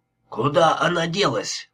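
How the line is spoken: Growl. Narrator (Russian): прорычал он

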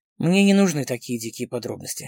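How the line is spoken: Gloomy. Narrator (Russian): мрачно сказал Костиков

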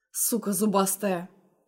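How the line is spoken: Muttered through teeth. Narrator (Russian): процедил себе под нос

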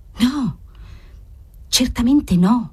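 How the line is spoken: Woman whispering. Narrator (Italian): sussurrò Margherita

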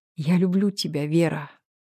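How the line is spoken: Whisper. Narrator (Russian): прошептал я

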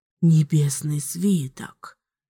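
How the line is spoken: Amazed whisper. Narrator (Russian): Изумленно прошептал

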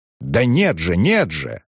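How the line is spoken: Exclamation. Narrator (Russian): воскликнул Лужин-старший

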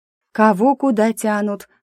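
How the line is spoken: Sleepy, just woken. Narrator (Russian): сонно отозвалась Риса, которую разбудил наш разговор

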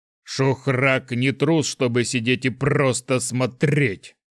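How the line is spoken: Loud growl, abruptly cut off. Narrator (Russian): прорычал тролль слишком громко, чем хотел, и тут же осекся

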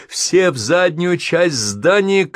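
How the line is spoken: Shouting. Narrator (Russian): крикнул он

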